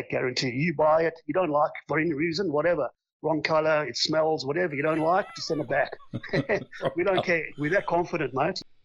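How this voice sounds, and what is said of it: South African accent. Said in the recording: “you still sound like a South African. ... I still sound like it. I do. It just sticks.”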